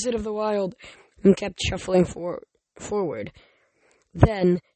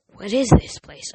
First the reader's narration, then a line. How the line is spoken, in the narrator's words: I murmured